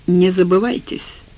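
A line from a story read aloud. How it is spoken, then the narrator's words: Cold. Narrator (Russian): холодно сказал Бах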